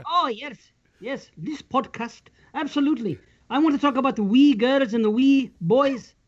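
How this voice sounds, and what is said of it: Put-on Scottish accent. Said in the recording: “you're gonna have to talk with a Scottish accent ... Maybe you shouldn't talk with the accent.”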